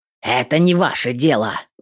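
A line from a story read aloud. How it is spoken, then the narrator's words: Rude reply. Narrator (Russian): грубо ответил Хадвин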